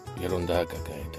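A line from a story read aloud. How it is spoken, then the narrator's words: Muttering. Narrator (Russian): пробормотал князь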